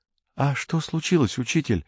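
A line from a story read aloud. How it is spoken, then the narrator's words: Timid question, young woman. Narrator (Russian): робко спросила какая-то девушка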